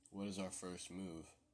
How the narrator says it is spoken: Father Richard asked

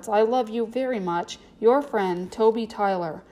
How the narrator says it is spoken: Toby sighed as he wrote the words

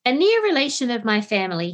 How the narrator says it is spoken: said

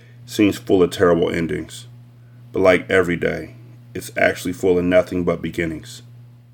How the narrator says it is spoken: Thomas Vanadium said quietly

